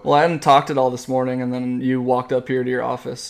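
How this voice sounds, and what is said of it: Raspy, smoky-sounding voice. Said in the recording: “apparently got a raspy voice. Sounds like I smoked a whole pack of cigarettes.”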